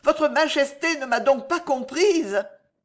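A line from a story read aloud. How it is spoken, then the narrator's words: Exclaimed. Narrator (French): s'écria Alice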